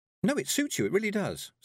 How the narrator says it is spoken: said Tiffany cheerfully

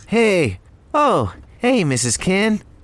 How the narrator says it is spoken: Rennie cheerfully greeted

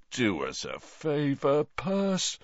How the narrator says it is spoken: said Bill, yawning

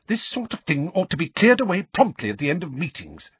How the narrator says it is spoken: snapped

